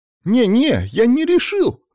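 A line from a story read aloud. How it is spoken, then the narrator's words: Exclaimed. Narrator (Russian): воскликнул Саня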